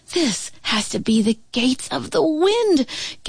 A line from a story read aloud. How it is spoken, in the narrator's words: Gamma Lee cried, struggling to keep her balance